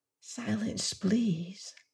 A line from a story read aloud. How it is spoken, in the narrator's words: whispered the scientist